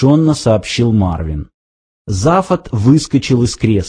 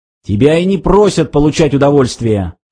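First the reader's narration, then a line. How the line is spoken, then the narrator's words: Barked. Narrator (Russian): рявкнул он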